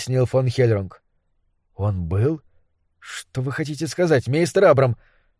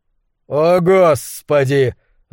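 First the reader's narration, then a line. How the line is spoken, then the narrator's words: Yelling. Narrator (Russian): завопил Уортроп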